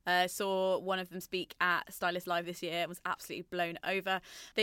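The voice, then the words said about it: Shaky excited voice. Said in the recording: “my voice is shaking, apparently, with how excited I am”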